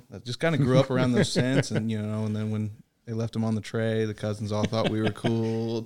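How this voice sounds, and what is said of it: Distinct North Florida accent. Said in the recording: “Apparently, I have a very distinct North Florida accent.”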